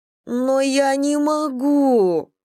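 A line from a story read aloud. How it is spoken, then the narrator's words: Moaned. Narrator (Russian): простонала Варя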